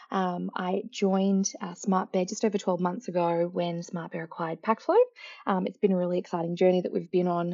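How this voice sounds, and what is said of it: Australian accent. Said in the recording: “As you can tell by my accent as well, I'm also located in Melbourne, Australia”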